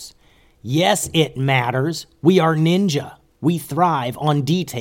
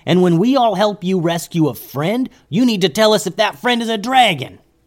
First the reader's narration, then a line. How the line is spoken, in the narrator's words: yelled Momo